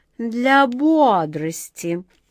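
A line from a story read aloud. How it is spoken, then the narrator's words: Insinuating repetition. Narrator (Russian): вкрадчиво повторила красотка Джина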